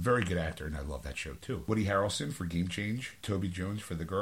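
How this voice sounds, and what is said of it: Usual voice. Nothing is said of it.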